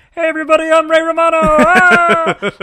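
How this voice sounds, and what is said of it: Kermit doing Ray Romano impression. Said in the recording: “Kermit the Frog saying, and I got a pretty good Ray Romano impression.”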